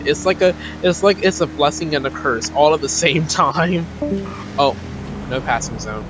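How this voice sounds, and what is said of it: Strong Southern US accent. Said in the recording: “do I sound real Southern? ... this is really technically not my real accent. I'm just so used to playing the part that my accent had just stuck”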